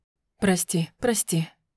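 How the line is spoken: Breathless. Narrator (Russian): выдохнул Альвир

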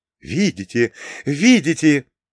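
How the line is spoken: Delighted exclamation. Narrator (Russian): восторженно воскликнул Юкио

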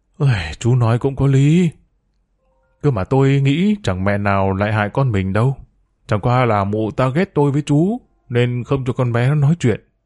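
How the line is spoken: Sighing. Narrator (Vietnamese): Bác Đan thở dài

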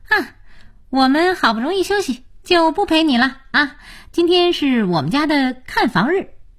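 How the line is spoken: Cheerful, smiling. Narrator (Chinese): 才智笑眯眯地说

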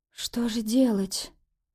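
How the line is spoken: Weak frightened whisper. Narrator (Russian): прошептала, чувствуя, как подкашиваются ноги

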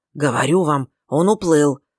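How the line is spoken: Loud hoarse whisper. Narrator (Russian): повторил он громким, хриплым шепотом

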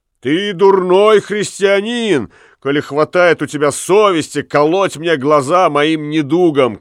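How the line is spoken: Shouted. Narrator (Russian): крикнул он

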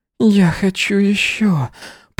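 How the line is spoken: Moaning. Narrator (Russian): простонал он

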